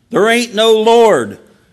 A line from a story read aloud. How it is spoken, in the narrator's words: an atheist who would get so angry at her proclamation that he would shout